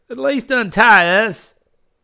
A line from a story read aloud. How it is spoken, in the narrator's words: cried Vince